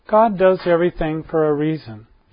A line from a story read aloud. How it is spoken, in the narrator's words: she resumed brightly